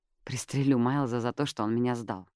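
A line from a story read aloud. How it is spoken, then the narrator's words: Muttered. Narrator (Russian): пробормотала Джаз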